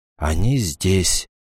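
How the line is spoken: Quiet. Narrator (Russian): тихо произнес Роберт

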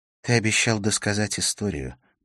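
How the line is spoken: Whispered. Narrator (Russian): прошептала она

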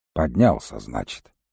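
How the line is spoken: Grumbling. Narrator (Russian): проворчал Волкодав

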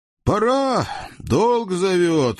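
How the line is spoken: Sighing. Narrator (Russian): вздохнул бывший узник

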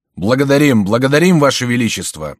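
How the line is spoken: Young men shouting in unison. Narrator (Russian): закричали в один голос молодые люди

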